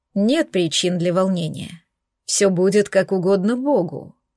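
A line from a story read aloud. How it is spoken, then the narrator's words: Calm oracle. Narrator (Russian): спокойно произнес оракул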